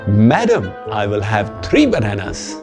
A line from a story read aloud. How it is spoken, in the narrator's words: Mayank responded cheerfully